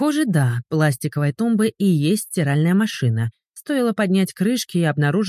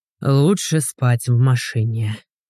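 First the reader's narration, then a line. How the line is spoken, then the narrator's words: Grumbling. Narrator (Russian): проворчал Игорь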